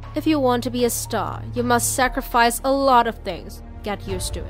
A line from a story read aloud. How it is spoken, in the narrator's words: she coldly replied